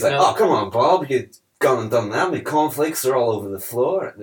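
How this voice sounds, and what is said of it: Weird put-on Australian accent. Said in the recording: “is doing his weird Australian kind of accent.”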